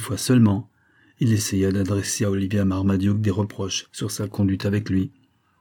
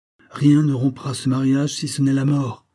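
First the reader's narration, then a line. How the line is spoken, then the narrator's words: Impatient exclamation. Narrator (French): s'écria le baronnet avec impatience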